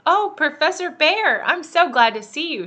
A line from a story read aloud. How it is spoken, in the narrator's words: she cried